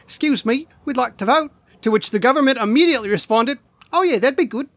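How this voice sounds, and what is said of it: Imitated New Zealand accent. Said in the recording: “Kind of breaking out a different accent. ... I'm trying it. The New Zealand accent I'm not a master of, but I had to give it a go.”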